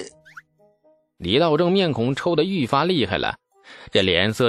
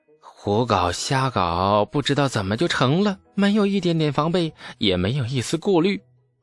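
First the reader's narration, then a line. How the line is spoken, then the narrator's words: Sighing. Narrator (Chinese): 李素叹息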